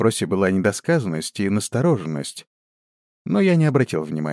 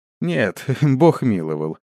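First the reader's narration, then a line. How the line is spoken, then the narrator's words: Laughing. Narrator (Russian): засмеялся я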